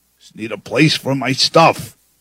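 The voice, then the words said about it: Strained George Carlin impression. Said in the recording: “my voice is not quite biologically tuned to do a George Carlin impression”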